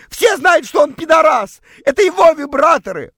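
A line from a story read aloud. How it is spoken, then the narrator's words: Dazed, illogical shout. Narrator (Russian): Вышла из оцепенения против всякой логики прокричала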